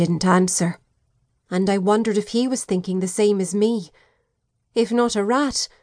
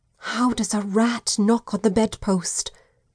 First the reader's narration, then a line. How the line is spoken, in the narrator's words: whispered